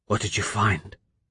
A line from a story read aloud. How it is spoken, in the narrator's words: he whispered, and he damned the machines that would make him sound disinterested, that would make him sound as if he knew